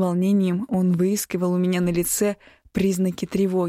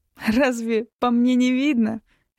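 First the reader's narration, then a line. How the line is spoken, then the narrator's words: Laughing. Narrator (Russian): рассмеялась я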